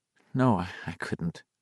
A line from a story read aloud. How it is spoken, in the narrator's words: Beverly said weakly